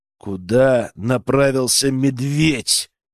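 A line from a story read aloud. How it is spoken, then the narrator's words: Menacing growl. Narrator (Russian): рыкнул я грозно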